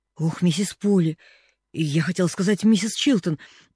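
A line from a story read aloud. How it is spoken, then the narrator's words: Stammering. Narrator (Russian): заикаясь, начала она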